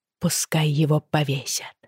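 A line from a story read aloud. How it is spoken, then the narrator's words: Quiet. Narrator (Russian): тихо сказала Бриана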